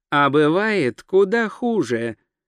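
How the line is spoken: Gentle, affectionate. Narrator (Russian): ласково заметил Траймон

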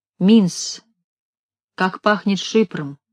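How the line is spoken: Quiet. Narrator (Russian): сказала она тихо

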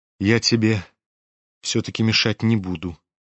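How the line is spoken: Quiet, pensive. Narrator (Russian): тихо проговорил он, почти задумчиво

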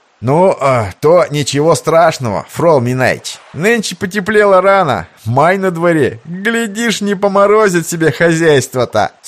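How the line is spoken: Chuckling. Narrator (Russian): С хохотком ответил ему второй

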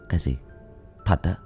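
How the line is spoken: Soft question. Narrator (Vietnamese): Tôi khẽ hỏi lại nó

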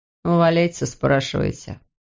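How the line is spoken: Said through gritted teeth. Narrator (Russian): процедил

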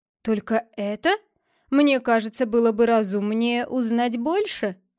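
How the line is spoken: Stranger's amused remark. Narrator (Russian): заметил незнакомец, как будто смеясь про себя

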